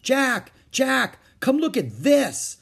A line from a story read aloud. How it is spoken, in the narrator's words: cried Annie